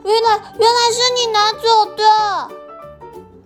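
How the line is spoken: Surprised. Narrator (Chinese): 小花惊讶的用小黄瓜语说出了经过

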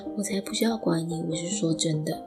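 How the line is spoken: Low explaining voice. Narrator (Chinese): 低声的解释

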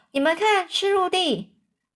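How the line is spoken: Captain shouting. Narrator (Chinese): 船长啊，他大喊说

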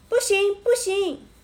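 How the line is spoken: Two people shouting. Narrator (Chinese): 温妮和乔治一听，两个人都大叫起来

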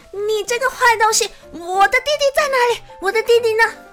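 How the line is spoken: Loud, frightened, anxious. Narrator (Chinese): 阿香又害怕又着急，大声的问

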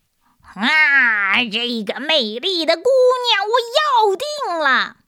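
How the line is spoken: Demon roaring. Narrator (Chinese): 红鬼咆哮着

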